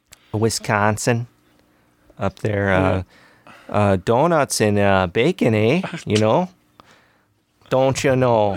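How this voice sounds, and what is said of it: Put-on northern Midwest accent. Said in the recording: “how people talk, like in the northern Midwest ... you really start getting that accent”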